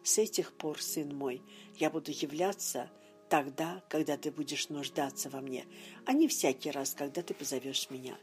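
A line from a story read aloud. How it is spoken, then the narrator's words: Gentle. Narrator (Russian): он мягко добавил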